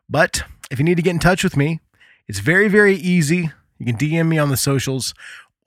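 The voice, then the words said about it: American accent. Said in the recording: “my stupid American accent”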